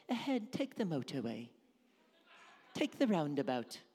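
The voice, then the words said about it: Put-on British accent. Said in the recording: “I chose the British accent.”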